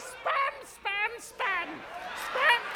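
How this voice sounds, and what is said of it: Falsetto comic voice. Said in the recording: “get the whole audience talking falsetto ... Let's hear everyone in falsetto ... the most impersonated voice outside of Julia Child in this country”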